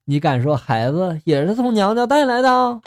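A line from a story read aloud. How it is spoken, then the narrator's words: With a smile. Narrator (Chinese): 男人一笑 就说了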